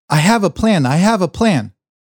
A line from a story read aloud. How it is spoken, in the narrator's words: I ran down the stairs from our bedroom screaming